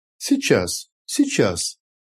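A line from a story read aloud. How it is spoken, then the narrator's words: Calm. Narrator (Russian): спокойно сказал Нэнквис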